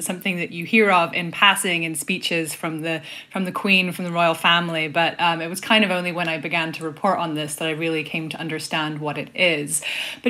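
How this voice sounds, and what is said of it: British accent. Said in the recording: “As the accent might give away, I'm actually British”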